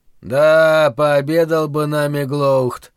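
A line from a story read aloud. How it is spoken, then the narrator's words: Pained grumble. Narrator (Russian): буркнул Хамар, болезненно морщась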